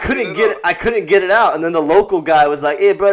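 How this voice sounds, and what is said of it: Usual voice. Nothing is said of it.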